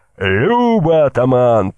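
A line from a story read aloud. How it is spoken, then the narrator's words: Shout. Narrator (Russian): выкрикнул кольцо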